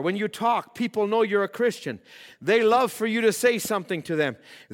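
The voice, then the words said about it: Raised, loud preaching voice. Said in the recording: “Now I'm raising my voice. I'm preaching.”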